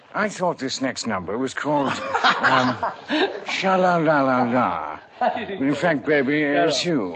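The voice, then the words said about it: James Mason impression. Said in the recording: “your famous James Mason impersonation voice”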